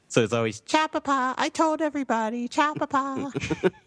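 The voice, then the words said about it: Bobcat Goldthwait-style character voice. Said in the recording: “I always read it as Bobcat Goldthwait ... I'm going to get you to do that voice again.”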